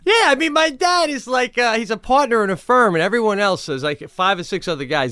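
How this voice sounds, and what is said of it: Long Island accent. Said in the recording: “Italian guy, Long Island, you know? ... I'm a prisoner in the accent.”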